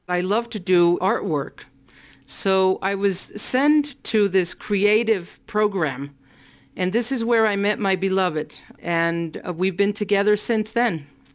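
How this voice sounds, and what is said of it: Bronx accent. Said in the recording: “I speak like I'm from the Bronx ... a Bronx accent in English”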